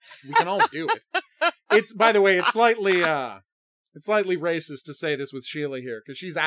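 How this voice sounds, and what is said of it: Usual voice. Nothing is said of it.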